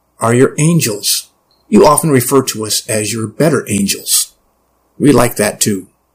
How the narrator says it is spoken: it said smoothly

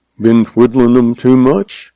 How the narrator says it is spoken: He asked dryly, his eyes twinkling

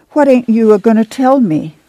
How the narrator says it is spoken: She begged

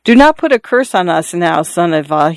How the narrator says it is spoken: he said timidly

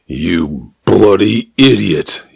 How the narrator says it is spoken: he said, his voice flat with anger

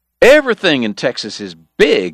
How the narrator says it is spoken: Eddie was hollering now

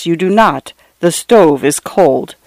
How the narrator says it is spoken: she replied in a low, flat voice

